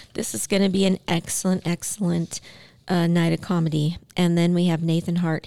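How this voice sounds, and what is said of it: Hoarse, strained voice. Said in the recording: “it sounds like I'm losing my voice.”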